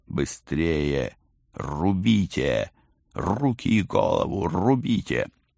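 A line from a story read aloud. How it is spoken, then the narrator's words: Urgent hiss. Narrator (Russian): я прошипел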